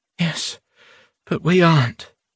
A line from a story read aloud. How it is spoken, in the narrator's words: Nadia said with a sigh